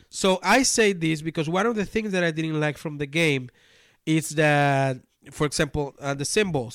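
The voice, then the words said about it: Spanish-accented English. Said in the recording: “my primary language is not English, right? My primary language is Spanish. ... And also my accent.”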